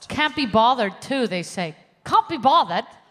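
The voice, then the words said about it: Put-on British accent. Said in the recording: “Is that good? I'm working on acting this year. Doing accents. ... Oh, you could get a job in The Crown.”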